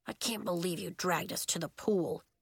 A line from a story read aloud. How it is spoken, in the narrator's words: Bax muttered to Nori